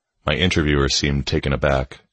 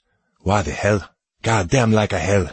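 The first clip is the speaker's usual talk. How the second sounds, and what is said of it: Thick French accent. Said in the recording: “he said with a thick French accent.”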